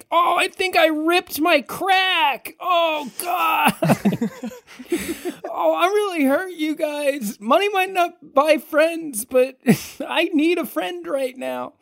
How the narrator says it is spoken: Seb is just yelling from the pavement

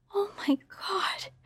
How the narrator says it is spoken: gasped

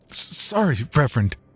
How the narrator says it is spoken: I mumbled sheepishly

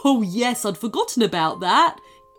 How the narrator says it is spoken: giggled Chewy

